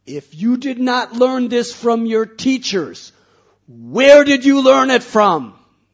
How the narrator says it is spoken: Hiranyakashipu screamed at Prahlad

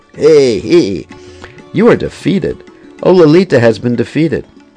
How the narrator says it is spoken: With great pride, Kusumasava held his arms above his head and pranced about while blurting out

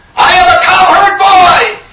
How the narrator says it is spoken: some of them screamed out

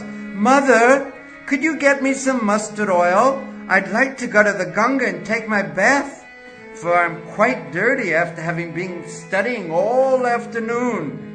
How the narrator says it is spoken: The Lord called out when he arrived at his house

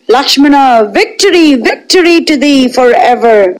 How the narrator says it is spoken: Vibhishana, Hanuman, Jambavan and the other monkey lords cried

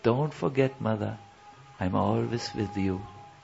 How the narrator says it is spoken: whispers

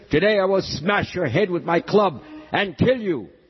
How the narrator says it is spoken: bellowed the demon

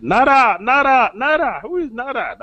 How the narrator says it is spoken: he also shouted

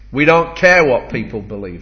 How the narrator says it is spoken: snapped back

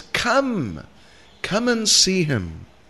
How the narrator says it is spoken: Some of them called out to the others

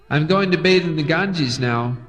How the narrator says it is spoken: he shouted to Mother Sachi

